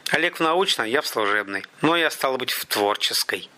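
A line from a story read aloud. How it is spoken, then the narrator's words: Through gritted teeth. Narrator (Russian): процедил Заро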